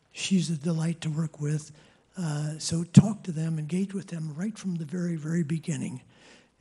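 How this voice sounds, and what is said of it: Strained, fading voice. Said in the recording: “Sorry, I keep losing my voice a little here.”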